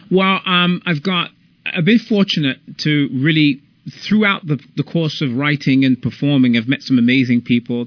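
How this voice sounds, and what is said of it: British accent. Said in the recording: “a British actor. I'm loving the accent.”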